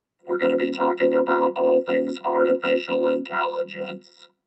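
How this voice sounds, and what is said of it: Robotic synthesized voice. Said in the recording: “I got to bust out the robot voice.”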